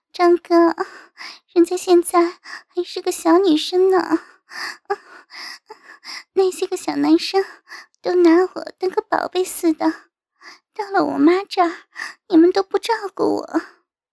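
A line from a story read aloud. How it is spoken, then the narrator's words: Coquettish, breathy. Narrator (Chinese): 我娇喘道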